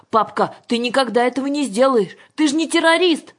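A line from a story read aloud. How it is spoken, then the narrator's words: Wailing loudly. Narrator (Russian): завопила Юлька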